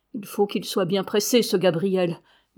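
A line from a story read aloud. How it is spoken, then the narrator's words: Murmured to himself. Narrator (French): murmura-t-il, comme en se parlant à lui-même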